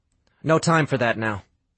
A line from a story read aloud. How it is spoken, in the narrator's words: Sam said firmly, but gently